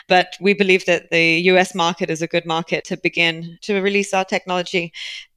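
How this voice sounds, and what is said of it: British accent. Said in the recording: “You've got that lovely British accent”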